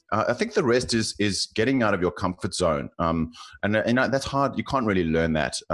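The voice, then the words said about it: South African accent. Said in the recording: “you can probably tell from my accent, I'm South African”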